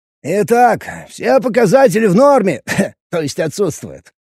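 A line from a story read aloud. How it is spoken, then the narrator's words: Wry snort. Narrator (Russian): хмыкнул Мёрфи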